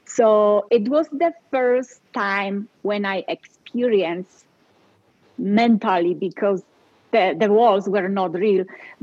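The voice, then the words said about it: Polish accent. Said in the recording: “I know I cannot hide it. I do have an accent ... I'm from Poland”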